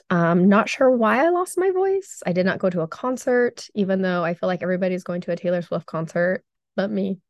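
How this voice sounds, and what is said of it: Weakened voice after losing it. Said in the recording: “I lost my voice last week and like literally I had to whisper ... I apologize for my voice.”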